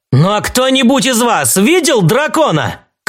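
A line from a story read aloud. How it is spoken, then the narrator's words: Shouted. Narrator (Russian): крикнул он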